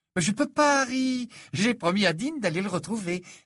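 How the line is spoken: Cheerful reply. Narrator (French): répondit Ginny d'un ton joyeux

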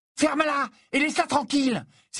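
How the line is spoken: Small armed person exclaiming. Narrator (French): s'écria, qui faisait à peu près les deux tiers de la taille de, mais avait l'avantage de tenir à la main une lourde batte

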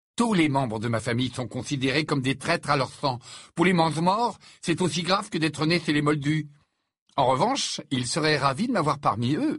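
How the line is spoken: Sarcastic. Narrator (French): dit Harry d'un ton sarcastique

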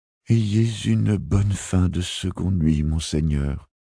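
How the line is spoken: Stammered. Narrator (French): bredouilla-t-elle

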